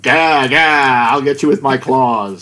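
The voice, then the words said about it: Comic impersonation voice. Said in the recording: “What a brilliant impersonation.”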